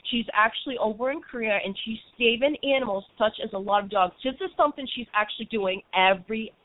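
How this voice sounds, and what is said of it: Boston accent. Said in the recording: “forgive me with my Boston accent”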